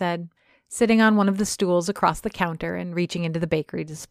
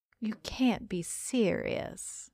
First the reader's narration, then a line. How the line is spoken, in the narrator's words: I muttered